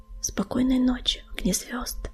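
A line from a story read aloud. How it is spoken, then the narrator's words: Mumbled. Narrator (Russian): пробормотала она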